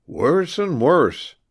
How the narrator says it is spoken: cried Jasper

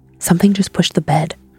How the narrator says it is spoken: whispered

